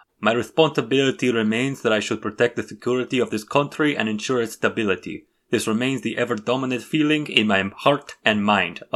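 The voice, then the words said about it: Imitates another person's voice. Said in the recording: “I couldn't help but read that in a Bashar voice.”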